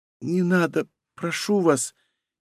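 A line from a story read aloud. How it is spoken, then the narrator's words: Faint reply, fallen girl. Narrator (Russian): еле слышно отозвалась лежащая на земле девушка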